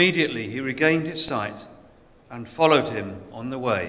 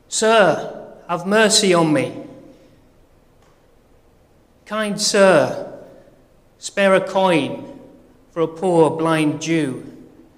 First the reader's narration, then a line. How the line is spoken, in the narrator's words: me, blind, shouting out